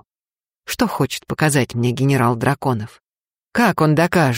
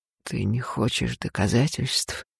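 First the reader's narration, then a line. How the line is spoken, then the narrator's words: Husky with desire. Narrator (Russian): сиплым от желания голосом отвечает Фарх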